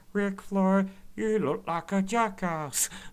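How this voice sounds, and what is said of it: Imitates another person's voice. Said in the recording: “That was such a good impression. ... I didn't know I could actually do a Terry Funk impression.”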